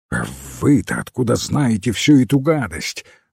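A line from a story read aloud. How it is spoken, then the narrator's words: Exclaiming. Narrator (Russian): воскликнул Фламбо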